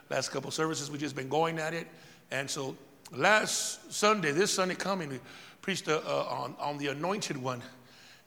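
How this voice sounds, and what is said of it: Hoarse, partly lost voice. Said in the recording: “I've lost my voice a little bit”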